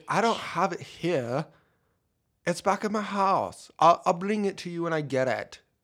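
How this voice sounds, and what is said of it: Put-on British accent. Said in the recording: “that was the best British accent I've ever heard... No, mine's terrible”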